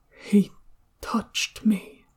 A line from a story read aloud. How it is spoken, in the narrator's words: Even softer, almost as if he were alone, Shenwei murmured